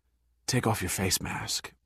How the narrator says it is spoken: Pitt whispered to Giordino

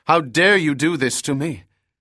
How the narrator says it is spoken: she cried

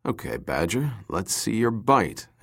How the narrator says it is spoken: Pitt braced his feet against the metal deck plate and muttered

